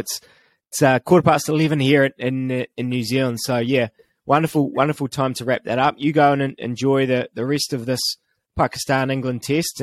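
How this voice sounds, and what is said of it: Voice starting to go, strained. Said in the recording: “You can hear my voice is starting to go.”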